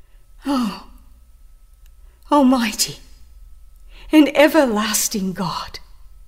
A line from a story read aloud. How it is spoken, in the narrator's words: he pleaded